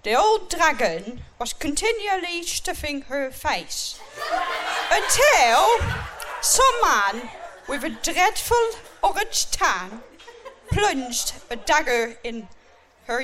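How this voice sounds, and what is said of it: West Country English accent. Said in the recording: “You sound like you come from Cornwall, Bristol. ... just my accent.”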